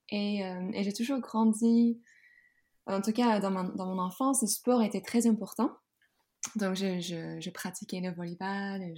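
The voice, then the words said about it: Slight Dutch accent in French. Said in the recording (French): “comme tu peut-être peux entendre dans ma voix, j'ai un petit accent. ... je suis hollandaise à l'origine”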